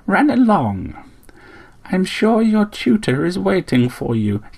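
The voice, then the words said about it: Strangely gentle voice. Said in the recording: “in a strangely gentle voice”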